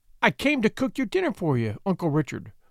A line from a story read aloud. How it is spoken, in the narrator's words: she stammered